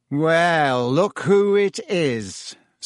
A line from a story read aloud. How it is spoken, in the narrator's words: said Malfoy in his usual lazy drawl